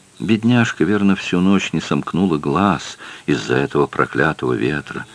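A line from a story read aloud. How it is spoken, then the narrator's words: Mother's whisper. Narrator (Russian): прошептала мать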